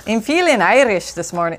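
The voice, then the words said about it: Poor put-on Irish accent. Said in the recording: “Oh, that's a terrible accent. ... Back away from the Irish accent”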